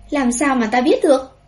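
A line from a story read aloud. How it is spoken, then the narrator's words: Angry. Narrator (Vietnamese): Bùi Nguyên Ca tức giận nói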